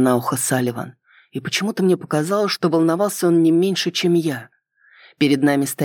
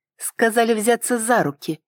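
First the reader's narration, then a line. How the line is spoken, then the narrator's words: Snide reminder. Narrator (Russian): ехидно напомнила я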